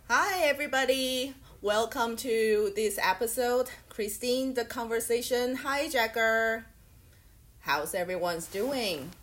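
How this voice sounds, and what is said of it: Strained, worn-out voice. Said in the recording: “my voice is a bit different today... my voice doesn't sound as nice as today because I've been abusing my voice for the last 2 nights”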